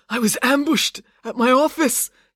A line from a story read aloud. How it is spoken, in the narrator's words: gasped Maynard